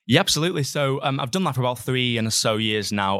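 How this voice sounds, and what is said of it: Northwest English accent. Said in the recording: “that's a good sort of Northwest accent coming through”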